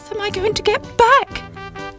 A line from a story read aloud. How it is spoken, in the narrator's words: cried Sybil